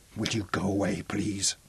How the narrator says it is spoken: whispered

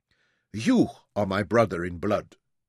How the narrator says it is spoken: Kurtz said, though his voice was firm and clear

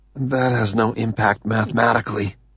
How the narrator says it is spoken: Randy whispers

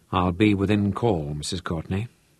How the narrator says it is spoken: Hansmeier said quietly

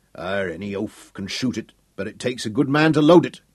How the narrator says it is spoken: he grunted

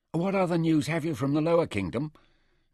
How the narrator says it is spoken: Nefer asked eagerly

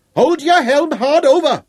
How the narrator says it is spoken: Llewellyn roared at him

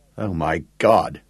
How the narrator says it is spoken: groaned Gareth

